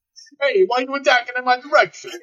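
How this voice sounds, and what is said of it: Put-on New York accent. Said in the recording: “Can Tony have, like, a New York accent?”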